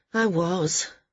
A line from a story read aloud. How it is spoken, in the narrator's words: Maris said wearily